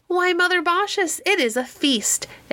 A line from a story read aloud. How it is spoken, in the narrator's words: exclaimed Quicksilver, laughing